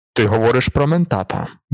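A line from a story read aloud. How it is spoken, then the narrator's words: Baron muttering. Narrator (Ukrainian): буркнув барон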